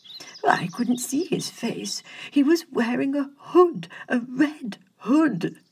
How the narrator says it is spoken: the nobleman sputtered

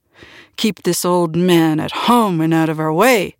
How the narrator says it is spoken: snarled

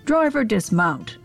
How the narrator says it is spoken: bellows

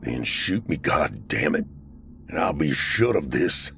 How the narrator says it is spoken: Corporal snarled

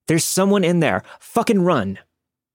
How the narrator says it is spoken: somebody yelled

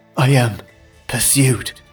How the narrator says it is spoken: gasped the prince

